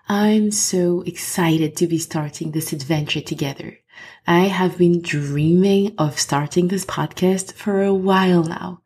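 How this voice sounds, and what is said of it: French accent in English. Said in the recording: “I am French, as you can or will probably hear from my accent”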